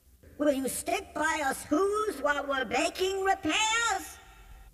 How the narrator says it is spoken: pleaded that voice of the mayor's

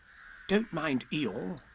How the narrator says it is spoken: whispered Rabbit to Pooh

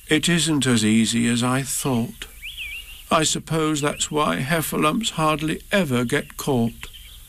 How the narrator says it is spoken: added sadly

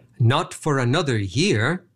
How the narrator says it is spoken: his father replied

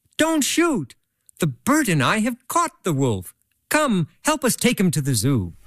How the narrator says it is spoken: Peter, sitting high up in the tree, cried out

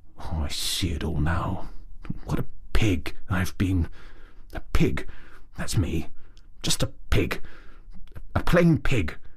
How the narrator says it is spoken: he muttered gloomily

